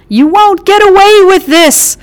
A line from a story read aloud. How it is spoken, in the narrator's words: Oscar screamed